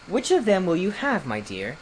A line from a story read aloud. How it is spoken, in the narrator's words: asked in a kind voice